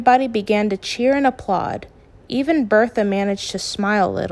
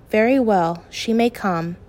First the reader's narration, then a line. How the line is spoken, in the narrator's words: Bertha let out a long sigh, then said